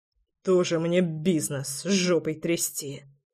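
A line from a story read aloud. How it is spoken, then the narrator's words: Old man muttering. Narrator (Russian): бормотание старика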